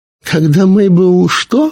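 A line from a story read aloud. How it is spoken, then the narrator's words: Giggle. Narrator (Russian): она хихикнула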